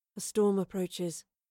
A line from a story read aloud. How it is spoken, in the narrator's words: the soothsayer muttered, once again seemingly to herself